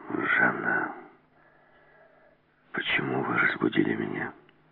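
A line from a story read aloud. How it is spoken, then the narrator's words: Whisper. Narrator (Russian): прошептал Келс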